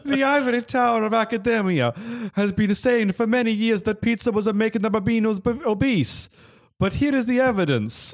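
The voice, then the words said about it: Put-on Italian accent. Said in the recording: “Oh, I can't do this accent. ... You're Italian.”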